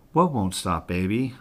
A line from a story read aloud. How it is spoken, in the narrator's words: I asked